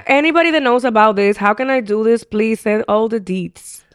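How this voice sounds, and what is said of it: Thick accent. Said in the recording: “my voice with this thick accent”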